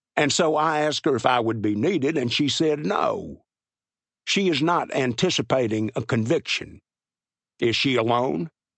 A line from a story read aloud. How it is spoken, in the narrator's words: He said in his thick Texas drawl